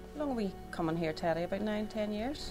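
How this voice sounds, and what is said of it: Speaks with a regional accent. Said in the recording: “Oh, I love the accent.”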